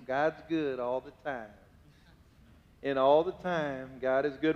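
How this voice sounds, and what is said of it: Put-on Southern accent. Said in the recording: “with a southern accent, say it like this”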